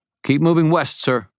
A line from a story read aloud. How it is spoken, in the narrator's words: shouted several others at the same time